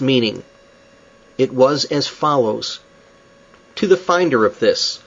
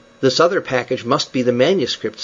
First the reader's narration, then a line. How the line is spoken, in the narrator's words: said Oxenden